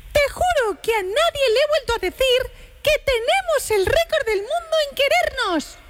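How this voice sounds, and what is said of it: Cartoon mouse character voice. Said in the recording (Spanish): “poniendo la voz de Mickey Mouse”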